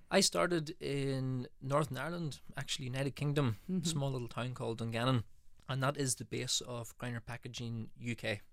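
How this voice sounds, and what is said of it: Northern Irish accent. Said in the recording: “we can tell from your accent that you are not necessarily from the US ... a bit of an Irish twang in there”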